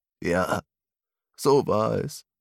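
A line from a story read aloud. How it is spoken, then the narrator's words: Sad old man. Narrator (German): nickte der alte Mann traurig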